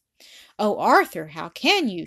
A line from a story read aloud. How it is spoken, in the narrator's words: she exclaimed, tears starting to her eyes